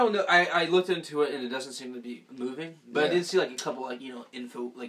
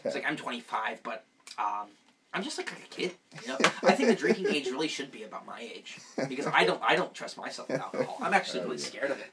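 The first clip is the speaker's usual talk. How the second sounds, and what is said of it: Childlike baby voice. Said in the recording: “we gotta get the voice right, though. The voice is like, now... It's like this like neonatal baby voice.”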